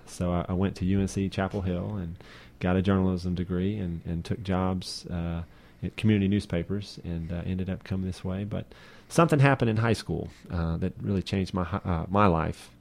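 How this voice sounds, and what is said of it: Eastern North Carolina Southern accent. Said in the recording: “I basically grew up in eastern North Carolina. That's where I picked up this accent”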